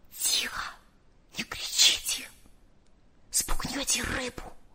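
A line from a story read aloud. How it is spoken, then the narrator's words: Barely audible whisper. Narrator (Russian): еле слышно прошептал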